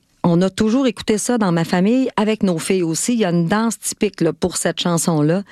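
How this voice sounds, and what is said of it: Lac-Saint-Jean Quebec French accent. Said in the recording (French): “Avec mon accent du Lac-Saint-Jean”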